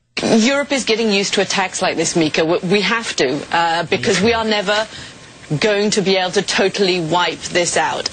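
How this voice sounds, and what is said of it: Upper-class British accent. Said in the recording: “high-class British accent”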